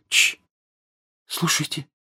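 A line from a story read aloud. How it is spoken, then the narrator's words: Sudden whisper. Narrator (Russian): Джинни вдруг прошептала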